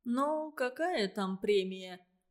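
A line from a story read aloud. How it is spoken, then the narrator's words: Drawl. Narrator (Russian): протянул Семен Яковлевич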